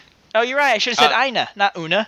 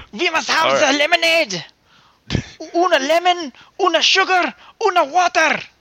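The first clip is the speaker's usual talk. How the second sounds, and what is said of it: Scottish accent attempting German. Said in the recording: “Why do I have a Scottish accent while trying to talk German? ... It kind of morphed.”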